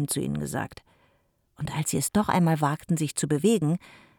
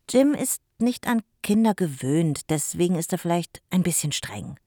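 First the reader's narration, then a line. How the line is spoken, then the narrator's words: Plain. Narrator (German): sagte Alina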